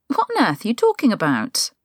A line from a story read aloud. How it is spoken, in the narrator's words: her voice is pitched too high and it wavers slightly